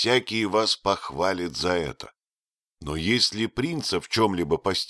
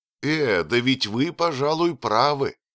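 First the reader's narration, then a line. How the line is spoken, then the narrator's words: Exclamation. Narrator (Russian): воскликнул Фриц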